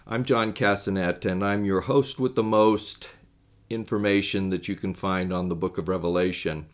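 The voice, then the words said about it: Deeper voice, sounds like a cold. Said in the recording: “my voice is a little bit deeper than what you may be used to ... I got hit with a little bit of a cold”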